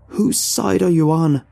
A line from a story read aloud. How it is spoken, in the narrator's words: She screams